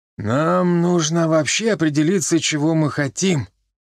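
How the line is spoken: Tired musing. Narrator (Russian): устало откинувшись в своем роскошном кресле, рассуждал Чибис

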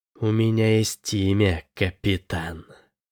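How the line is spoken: Witch's hiss. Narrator (Russian): ведьма прошипела

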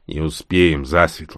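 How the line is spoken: Sad. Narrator (Russian): грустно сказал Росс

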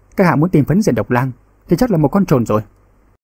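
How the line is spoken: Cold reply. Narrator (Vietnamese): Lâm Đoàn Nghĩa lạnh lùng đáp

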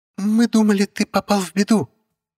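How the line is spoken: Squeak. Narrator (Russian): пискнула Татьяна

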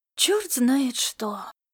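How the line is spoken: Mumbling. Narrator (Russian): пробормотала Фапивата

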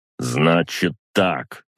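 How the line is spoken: Crisp, clipped delivery. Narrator (Russian): отчеканил я

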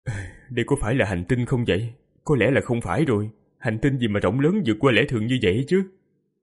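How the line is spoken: Weak, groaning. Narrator (Vietnamese): Hắn vô lực chỉ biết rên rỉ, rồi nói

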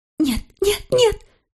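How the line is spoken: Trembling hysterical whisper. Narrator (Russian): выдохнула она дрожащим истерическим шепотом

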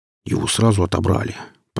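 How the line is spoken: Grumble. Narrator (Russian): пробурчал наемник

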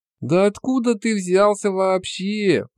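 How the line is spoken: Groaned. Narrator (Russian): простонал он

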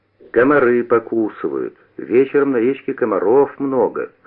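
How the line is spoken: Plain. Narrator (Russian): сказал Куница

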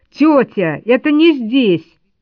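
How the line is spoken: Sudden frantic boy's shout. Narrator (Russian): кто-то из мальчиков вдруг крикнул истошно

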